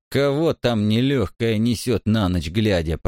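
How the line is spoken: Grumbling. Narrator (Russian): проворчали

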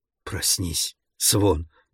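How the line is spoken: Whispered. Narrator (Russian): прошептал он

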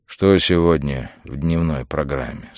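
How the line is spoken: Weary question. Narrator (Russian): спросил он устало

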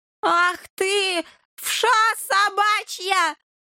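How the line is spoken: Roaring. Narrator (Russian): взревел Полын Бурьянов

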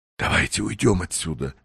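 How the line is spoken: Whisper. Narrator (Russian): шепнул Уэллс

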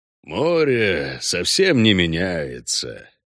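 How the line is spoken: Thoughtful. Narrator (Russian): сообщил Хальгдаф задумчиво

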